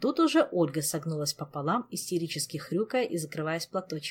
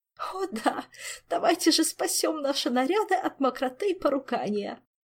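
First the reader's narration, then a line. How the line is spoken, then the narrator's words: Moaning. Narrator (Russian): простонала она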